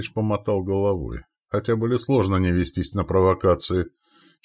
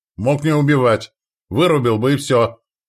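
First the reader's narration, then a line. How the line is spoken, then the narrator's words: Shouting. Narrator (Russian): закричал Тэшен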